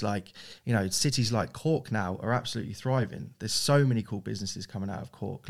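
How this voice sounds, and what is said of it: English accent. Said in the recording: “my accent is very English”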